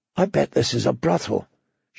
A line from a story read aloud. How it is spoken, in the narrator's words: she whispered to Gendry